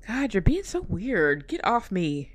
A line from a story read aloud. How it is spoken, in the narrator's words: groaned